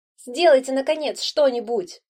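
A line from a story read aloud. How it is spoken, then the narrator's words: Shouting woman. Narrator (Russian): кричала блондинка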